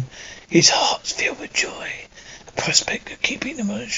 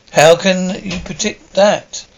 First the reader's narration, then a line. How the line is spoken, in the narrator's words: Jack laughs